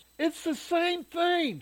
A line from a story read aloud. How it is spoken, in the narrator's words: yelled